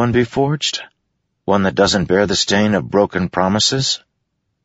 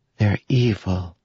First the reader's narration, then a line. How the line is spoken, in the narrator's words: she said in a small voice